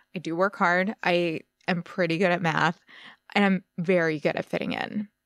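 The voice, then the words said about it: American accent. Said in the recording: “my excellent American accent”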